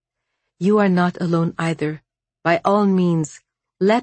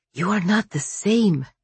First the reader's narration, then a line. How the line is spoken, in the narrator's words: she whispered